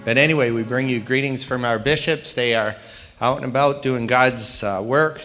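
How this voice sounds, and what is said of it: Slightly raspy voice. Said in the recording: “excuse me if I cough a little bit ... my voice has gotten a little raspy”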